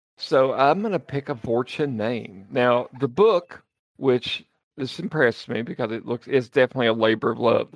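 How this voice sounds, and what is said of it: Appalachian Southern American accent. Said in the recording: “if you can't tell by the accent, I'm a little Appalachian”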